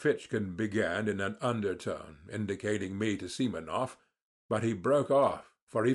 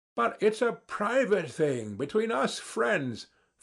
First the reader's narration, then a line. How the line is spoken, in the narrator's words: Ferfitchkin said crossly